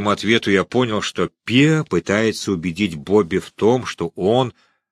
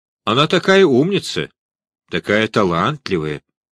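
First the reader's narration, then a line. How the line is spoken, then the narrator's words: Unhappy voice. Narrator (Russian): несчастным голосом проговорил Бобби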